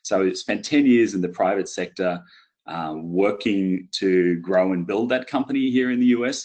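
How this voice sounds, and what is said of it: Australian accent. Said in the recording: “I'm originally from Brisbane, Australia, which is why I talk with this funny accent.”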